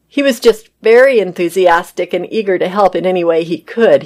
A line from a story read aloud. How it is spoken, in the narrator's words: he said